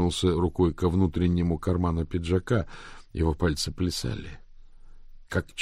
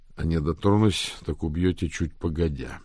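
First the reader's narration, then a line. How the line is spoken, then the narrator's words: Grim. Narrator (Russian): мрачно заметил Рик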